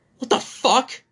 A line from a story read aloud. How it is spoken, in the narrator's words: the guy shouted